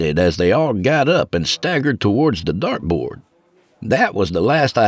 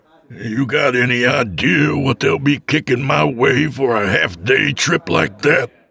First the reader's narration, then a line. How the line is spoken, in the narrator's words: He grumbled